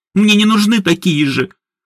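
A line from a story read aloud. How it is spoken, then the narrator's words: Sobbing. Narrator (Russian): рыдала Едвига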